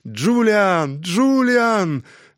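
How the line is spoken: Delighted yell. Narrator (Russian): Жан, который восторженно завопил

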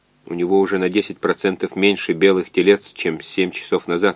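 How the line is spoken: Plain. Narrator (Russian): сказал доктор

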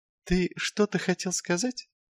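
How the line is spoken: Soft inquiring tone. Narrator (Russian): мягким тоном осведомился Патриций

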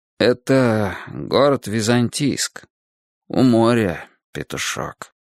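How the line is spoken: Sighing. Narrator (Russian): вздохнул я

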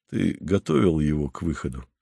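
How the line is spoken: Quiet question. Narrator (Russian): спросил он тихо

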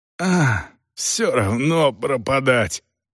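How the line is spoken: Hoarse rasp. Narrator (Russian): прохрипел сержант Талус

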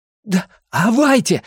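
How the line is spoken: Exclaiming. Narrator (Russian): воскликнул Билл

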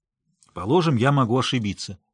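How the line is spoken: Angry reply. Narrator (Russian): сердито ответил я

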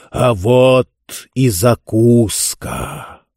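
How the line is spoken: Thunderous rumbling voice. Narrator (Russian): громовым голосом пророкотал

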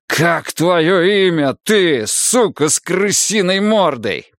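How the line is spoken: Shouted. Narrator (Russian): прокричал я

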